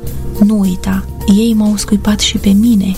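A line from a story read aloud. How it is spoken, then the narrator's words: Inner whisper. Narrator (Romanian): domnul a șoptit inimii mele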